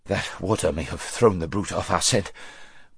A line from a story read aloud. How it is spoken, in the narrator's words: panted Bree when he had partly got his breath again